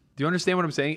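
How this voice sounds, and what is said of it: Yelling, loud raised voice. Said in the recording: “Why are you yelling at me?”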